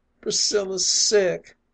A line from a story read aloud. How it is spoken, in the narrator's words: moaned the distressed voice